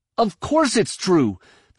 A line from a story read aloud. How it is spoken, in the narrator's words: Ben exclaimed